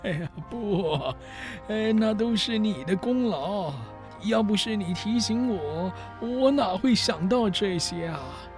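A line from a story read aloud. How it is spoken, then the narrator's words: Old man, laughing. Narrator (Chinese): 彭达福老先生却笑着说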